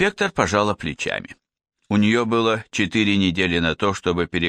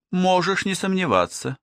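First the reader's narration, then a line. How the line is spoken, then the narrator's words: Sighing female. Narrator (Russian): вздохнула она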